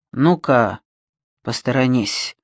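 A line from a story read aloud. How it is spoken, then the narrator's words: Hoarse but surprisingly calm. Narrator (Russian): хрипло, но на удивление спокойно сказал Альберг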